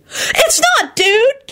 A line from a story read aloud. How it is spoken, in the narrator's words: Kenny wailed furiously